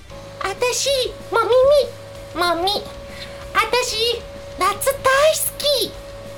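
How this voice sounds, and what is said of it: Odd put-on character voice. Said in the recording (Japanese): “その声で。...あまりにも声の出所が分からなすぎて。...もうちょっと可愛くできたらよかったのに”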